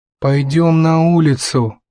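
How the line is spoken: Grumbling mutter. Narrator (Russian): пробурчал из своего угла Натан

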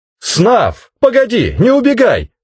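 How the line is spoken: Shouting after someone. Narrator (Russian): кричал мне вслед

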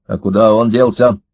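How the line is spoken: Stern question. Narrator (Russian): строго спросил Карась

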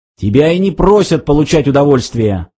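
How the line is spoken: Barked. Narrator (Russian): рявкнул он

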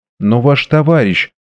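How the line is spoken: Timid. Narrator (Russian): робко произнесла леди Чальсбери

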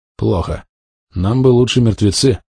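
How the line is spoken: Sighed. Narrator (Russian): вздохнул я

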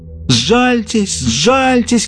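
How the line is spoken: Crowd crying out. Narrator (Russian): кричали несчастные

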